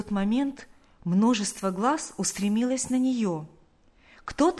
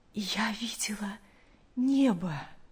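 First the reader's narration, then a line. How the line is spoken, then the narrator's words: Weak but joyful. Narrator (Russian): мать, слабым голосом, но с огромной радостью сказала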